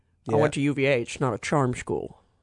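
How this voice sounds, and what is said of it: Imitates another person's voice. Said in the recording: “that's my Jodie Foster impression.”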